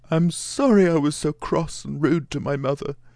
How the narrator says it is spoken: he sobbed out

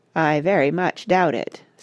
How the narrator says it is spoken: said Parrot gloomily

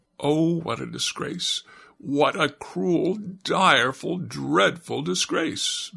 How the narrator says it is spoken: moaned the octopus, in shame, great tears falling down his cheeks

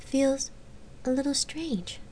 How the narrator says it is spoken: Gabrielle had admitted quietly

